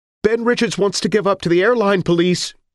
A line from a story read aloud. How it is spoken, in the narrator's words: she cried